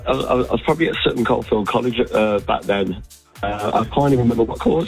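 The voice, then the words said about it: Rough, worn-out voice. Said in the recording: “my voice sounds as bad as it does, because I was at the Villa game at the weekend”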